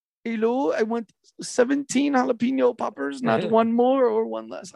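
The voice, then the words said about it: Poor attempt at German accent. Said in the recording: “I cannot do a German accent, by the way. Just found that out.”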